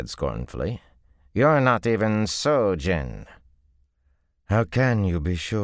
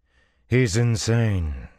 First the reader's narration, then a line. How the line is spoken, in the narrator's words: she said coolly